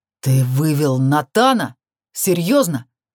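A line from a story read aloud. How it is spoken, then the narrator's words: Angry growl. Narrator (Russian): Зло прорычал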